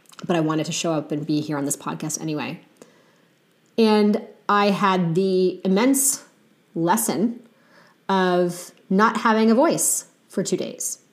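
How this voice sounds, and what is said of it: Weak voice after illness. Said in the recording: “my voice might be a little weak today”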